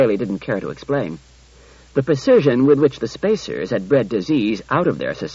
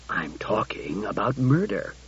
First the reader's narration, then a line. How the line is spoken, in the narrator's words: said the commissioner softly